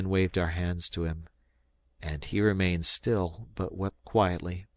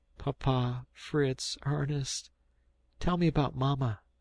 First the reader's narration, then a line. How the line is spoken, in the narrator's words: said he at last in an inquiring tone